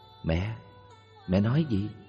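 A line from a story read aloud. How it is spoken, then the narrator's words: Soft close question. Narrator (Vietnamese): Con bà ghé sát hỏi khẽ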